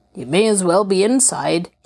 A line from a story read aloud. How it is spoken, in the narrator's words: he said gruffly